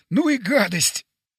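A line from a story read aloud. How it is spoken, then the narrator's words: Strained, gasping for air. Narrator (Russian): выдавил, хватая ртом воздух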